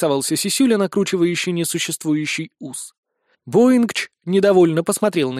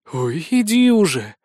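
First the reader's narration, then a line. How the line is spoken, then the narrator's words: Exasperated exhale. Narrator (Russian): выдохнула Безос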